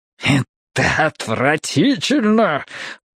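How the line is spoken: Snake-like hiss. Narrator (Russian): ответил мистер Прискетт, и прозвучало это как змеиное шипение

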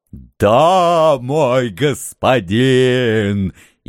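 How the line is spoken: Old man near-sobbing with joy. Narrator (Russian): Едва не рыдал старый хан, безмерно счастливый возможностью совершить такое извращенное злодеяние

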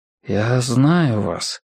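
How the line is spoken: Muttering. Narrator (Russian): пробормотал Мэтью

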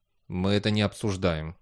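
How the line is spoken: Grumbled. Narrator (Russian): буркнул Бейли

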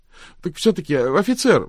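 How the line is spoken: Pleading call after someone. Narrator (Russian): взмолилась Люба вслед уходящему Крамсу

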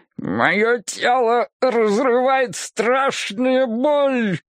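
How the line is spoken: Through teeth, mangled words. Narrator (Russian): проговорил он сквозь зубы, безжалостно коверкая слова

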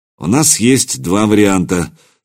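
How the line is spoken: Calm. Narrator (Russian): спокойно сообщил Квази

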